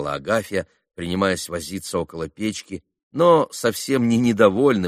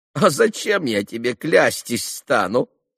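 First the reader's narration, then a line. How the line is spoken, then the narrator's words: Laughing. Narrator (Russian): засмеялась Агафья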